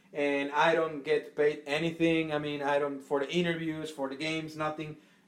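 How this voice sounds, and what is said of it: Strong non-native accent. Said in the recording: “my awful accent”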